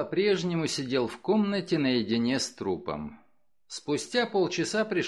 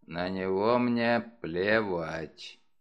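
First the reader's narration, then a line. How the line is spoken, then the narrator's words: Curt mutter. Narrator (Russian): Мегре он только буркнул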